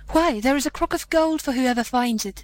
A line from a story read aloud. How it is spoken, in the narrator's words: they cried, so eager were they for the gold